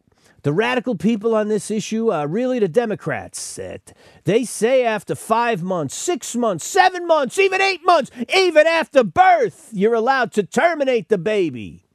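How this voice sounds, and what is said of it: Bad impression, New York gangster-like accent. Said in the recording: “Very bad impression of Donald Trump. Why do I always sound like a low-level New York gangster when I'm trying to do Donald Trump? He's got like a highbrow Manhattan accent,”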